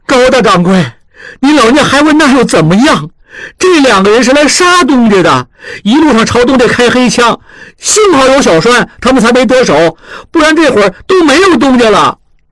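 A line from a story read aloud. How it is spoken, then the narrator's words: Agitated loud shouting. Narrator (Chinese): 小栓急了，大声嚷嚷起来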